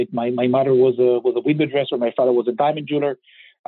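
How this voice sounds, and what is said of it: Israeli accent. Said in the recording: “I was born and raised in Israel, which I'm sure you can kind of tell by my accent”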